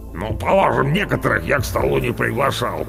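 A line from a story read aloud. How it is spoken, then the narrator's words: Grumbled. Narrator (Russian): проворчал Орвар, большое брюхо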